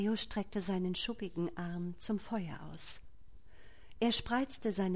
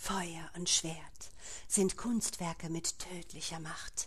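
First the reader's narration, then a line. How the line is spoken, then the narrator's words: Whispered. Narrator (German): flüsterte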